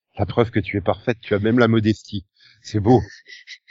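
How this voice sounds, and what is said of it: Slightly congested, blocked-nose voice. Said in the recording (French): “j'ai toujours un accent pourri en plus d'avoir le nez légèrement bouché”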